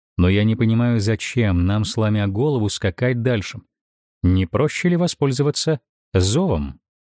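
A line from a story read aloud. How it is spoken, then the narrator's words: Sensible, reasoning voice. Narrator (Russian): слов девушки, сказанных рассудительным голосом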